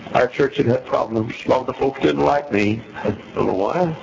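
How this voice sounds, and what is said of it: Southern US accent. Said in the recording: “I had a southern accent.”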